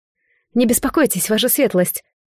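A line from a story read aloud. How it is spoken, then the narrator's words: Hurried blurt. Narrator (Russian): торопливо выпалила Марет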